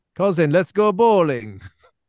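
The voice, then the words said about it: Mock Russian accent, GTA 4 character. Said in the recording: “the Russians in Grand Theft Auto 4. We're all Americans doing Russian accent.”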